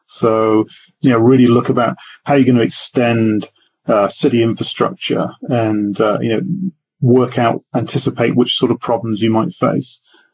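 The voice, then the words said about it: British English accent. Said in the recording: “by your accent ... You're from the UK, right? ... born and bred in the UK ... I've kept the accent.”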